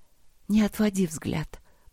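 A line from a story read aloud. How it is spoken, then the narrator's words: Whisper. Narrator (Russian): прошептала она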